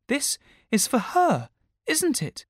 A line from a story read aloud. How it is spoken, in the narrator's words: Gwen cried